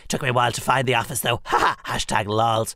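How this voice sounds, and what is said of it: Pompous self-important put-on voice. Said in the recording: “speaking in my very important voice”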